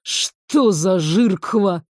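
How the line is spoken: Indignant grumble. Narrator (Russian): с негодованием проворчал пятый

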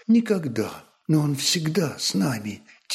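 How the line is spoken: Mother's quiet answer. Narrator (Russian): тихо ответила мать

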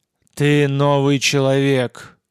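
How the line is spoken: Synthetic breaking gurgling voice. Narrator (Russian): произнесло ужасное существо абсолютно синтетическим, ломающимся и булькающим голосом

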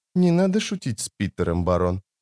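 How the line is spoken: Quiet. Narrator (Russian): негромко сказал Питер

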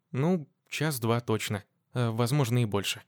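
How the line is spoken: Uncertain young woman. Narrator (Russian): неуверенно сказала девушка, так как и сама не представляла, насколько все может затянуться

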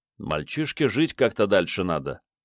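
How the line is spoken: Gloomy remark. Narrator (Russian): мрачно заметил Мун

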